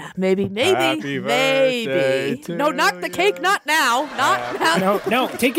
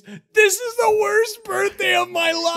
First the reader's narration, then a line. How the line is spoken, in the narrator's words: he screams